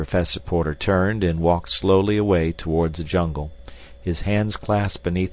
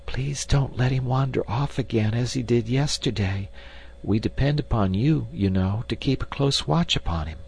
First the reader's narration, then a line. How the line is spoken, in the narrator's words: she whispered